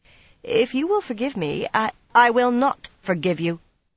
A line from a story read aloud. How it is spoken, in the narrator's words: she said hesitantly